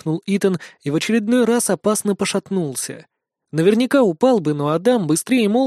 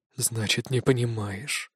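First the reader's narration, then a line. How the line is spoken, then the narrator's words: Young man's tired whisper. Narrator (Russian): устало прошептал молодой вожак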